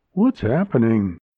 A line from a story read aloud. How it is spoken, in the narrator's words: Ray exclaimed